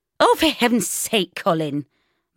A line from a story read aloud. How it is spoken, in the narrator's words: Mum snapped